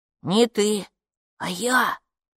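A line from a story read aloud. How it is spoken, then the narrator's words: Whispered reply. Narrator (Russian): прошептал в ответ Капу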